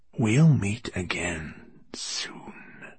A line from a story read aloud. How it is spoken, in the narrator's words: he hissed in his noseless voice